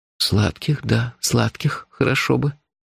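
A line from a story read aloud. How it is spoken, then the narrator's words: Mumble. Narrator (Russian): пробормотал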